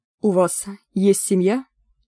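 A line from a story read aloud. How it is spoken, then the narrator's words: Plain. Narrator (Russian): спросил Гвидион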